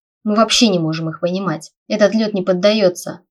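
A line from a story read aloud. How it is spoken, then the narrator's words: Growling. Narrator (Russian): рыкнул Тайлер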